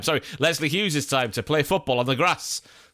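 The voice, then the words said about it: Put-on Welsh accent. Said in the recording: “that was a lovely Welsh accent”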